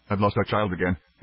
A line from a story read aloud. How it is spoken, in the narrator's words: he said tightly